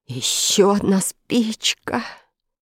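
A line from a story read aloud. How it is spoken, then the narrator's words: Whisper with heavy sigh. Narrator (Russian): с тяжелым вздохом прошептал Фред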